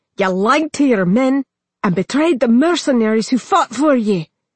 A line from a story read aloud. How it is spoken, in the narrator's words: Muradin snapped